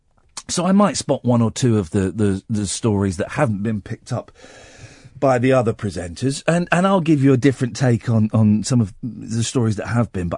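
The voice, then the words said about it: Hoarse, congested voice. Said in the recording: “I've got a bit of a sore throat. You know, I've been losing my voice... I was all bunged up. I've got a cold.”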